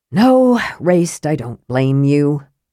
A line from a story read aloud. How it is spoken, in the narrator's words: Karaman said with a sigh